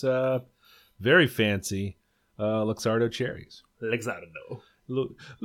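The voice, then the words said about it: Put-on Italian accent. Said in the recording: “that's an Italian accent.”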